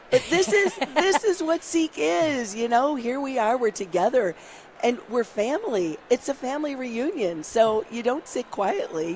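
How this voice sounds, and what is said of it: Strained, worn-out voice. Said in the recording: “my voice has been better ... You're shouting out ... We can have vocal rest next week.”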